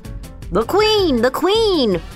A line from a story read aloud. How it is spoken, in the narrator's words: the other gardener called out